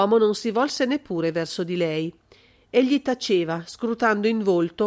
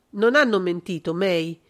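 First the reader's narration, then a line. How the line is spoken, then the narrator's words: Cold. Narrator (Italian): pronunziò freddamente John Michael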